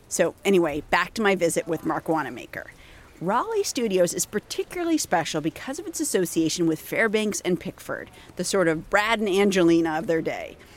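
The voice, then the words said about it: Scratchy, hoarse voice. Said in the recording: “I had an undiagnosed upper respiratory infection ... my voice is going to sound a little bit scratchy here”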